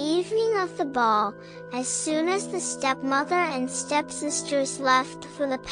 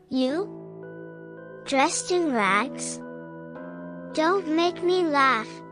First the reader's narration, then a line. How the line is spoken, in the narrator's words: answered the stepmother